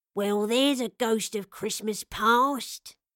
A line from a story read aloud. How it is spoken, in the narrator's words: he chuckled in a husky but warm voice